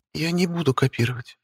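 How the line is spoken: Barely audible. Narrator (Russian): пообещала едва слышно

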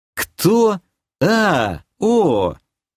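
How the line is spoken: Drawling. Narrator (Russian): протянул я

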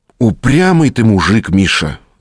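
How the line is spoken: Sighing. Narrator (Russian): вздохнул следователь

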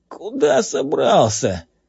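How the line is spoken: Hoarse wheeze. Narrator (Russian): просипел он по инерции

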